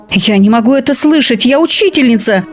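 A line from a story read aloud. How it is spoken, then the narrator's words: Shout. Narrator (Russian): закричала мадам Алексеева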